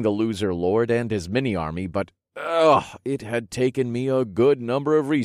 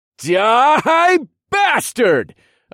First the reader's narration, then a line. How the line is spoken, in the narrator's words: yelled